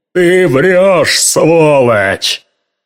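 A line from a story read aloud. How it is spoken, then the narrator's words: Cracking, hurt, indignant shout. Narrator (Russian): закричал Дюк Райнеман, голосом, надломившимся от обиды из-за предательства и от возмущенного понимания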